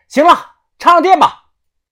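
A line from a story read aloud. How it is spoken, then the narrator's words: Shouting upward. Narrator (Chinese): 我冲上喊道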